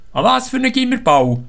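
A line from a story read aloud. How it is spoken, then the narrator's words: Called out. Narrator (German): ruft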